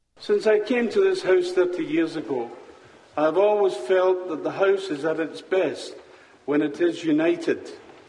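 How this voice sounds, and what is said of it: Scottish accent. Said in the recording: “the unusual Scottish accent”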